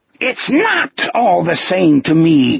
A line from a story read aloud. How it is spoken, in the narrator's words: Gardner screamed